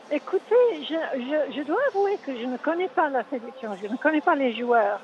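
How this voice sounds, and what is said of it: English accent speaking French. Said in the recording (French): “Anglaise, Moya. ... Ah oui, je l'entends à l'accent, oui.”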